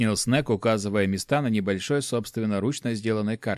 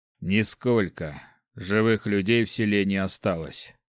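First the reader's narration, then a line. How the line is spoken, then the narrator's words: Gloomy cleric answering. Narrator (Russian): мрачно ответил клирик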